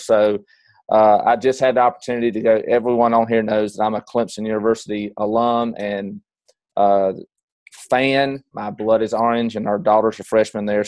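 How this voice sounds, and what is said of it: Slightly hoarse voice. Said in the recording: “my voice sounds a little hoarse ... I yelled really loud ... if I sound a little hoarse today”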